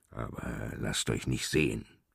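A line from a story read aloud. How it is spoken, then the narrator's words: Mumbled grumbling. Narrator (German): brummelte er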